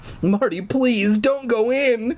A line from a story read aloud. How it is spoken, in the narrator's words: I begged